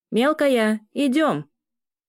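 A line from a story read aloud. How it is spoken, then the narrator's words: Distant shout. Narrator (Russian): Крикнул из коридора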